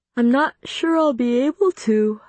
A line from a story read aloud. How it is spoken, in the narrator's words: I said, stifling another yawn